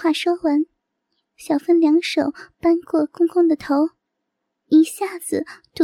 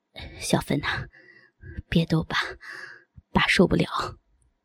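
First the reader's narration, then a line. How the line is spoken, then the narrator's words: Breathless, aroused. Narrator (Chinese): 压抑的欲火一旦被点燃……喘着气说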